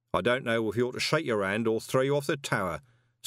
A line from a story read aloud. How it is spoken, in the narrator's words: said St